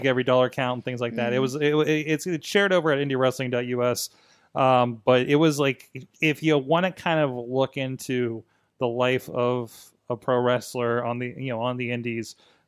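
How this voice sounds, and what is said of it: Strained, hoarse voice giving out. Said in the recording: “losing my voice”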